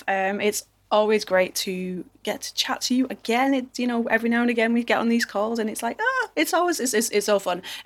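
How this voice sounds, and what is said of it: English Manchester accent. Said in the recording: “my accent, I am not American. I am from over the pond, over in sunny England ... I'm from a place called Manchester.”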